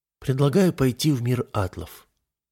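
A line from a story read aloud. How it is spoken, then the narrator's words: Calm. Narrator (Russian): почти сразу спокойно сказал Алиэла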